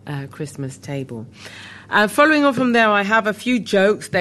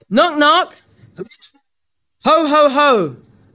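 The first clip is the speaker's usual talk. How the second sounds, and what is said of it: Rough Santa Claus voice impression. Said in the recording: “Your Santa impression needs a little work.”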